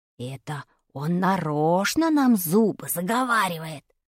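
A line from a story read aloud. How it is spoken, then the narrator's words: Whisper in ear. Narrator (Russian): шепнул мне на ухо Вадик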